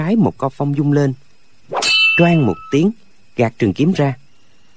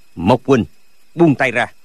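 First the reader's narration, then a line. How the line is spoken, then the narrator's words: Old man's shout. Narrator (Vietnamese): lão quát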